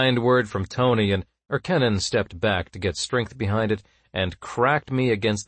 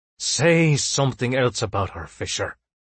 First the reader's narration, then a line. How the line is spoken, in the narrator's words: Erkennen growled